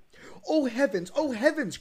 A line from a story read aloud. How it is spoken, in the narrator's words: cried they